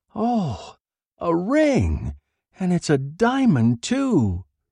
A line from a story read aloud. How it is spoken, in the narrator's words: she cried in a rich, happy voice